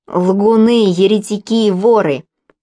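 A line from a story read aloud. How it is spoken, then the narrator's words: Leader shouting. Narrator (Russian): закричал предводитель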